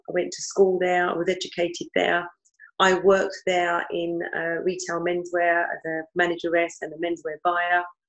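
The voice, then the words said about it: East London accent. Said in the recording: “settled in the East End of London. You could probably tell by the accent, in a place called East Ham”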